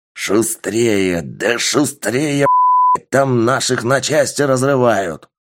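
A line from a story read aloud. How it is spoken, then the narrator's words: Shouting. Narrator (Russian): кричал командир воздушного судна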